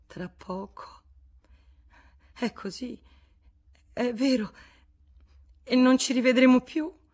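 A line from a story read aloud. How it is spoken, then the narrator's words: Choked by sobs. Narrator (Italian): I singhiozzi la soffocavano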